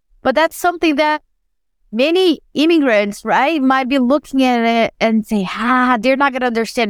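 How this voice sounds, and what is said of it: Non-native English accent. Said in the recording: “I'm never going to come here and have a perfect sentence or a pronunciation ... my accent doesn't piss you off or irritates you”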